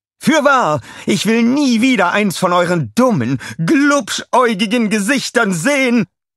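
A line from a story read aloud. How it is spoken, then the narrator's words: Screaming. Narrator (German): schrie sie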